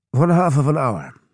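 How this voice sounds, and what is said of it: Clipped foreign accent. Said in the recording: “in a clipped accent.”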